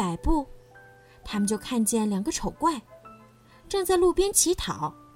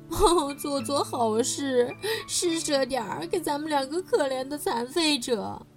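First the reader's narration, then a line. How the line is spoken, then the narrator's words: Whining, crying call. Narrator (Chinese): 狐狸哭也似的叫道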